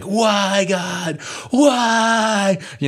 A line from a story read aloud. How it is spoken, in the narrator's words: people just screaming